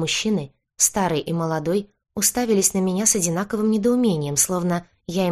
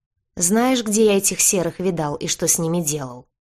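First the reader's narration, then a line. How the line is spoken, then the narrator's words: Growl. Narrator (Russian): зарычал кожевенник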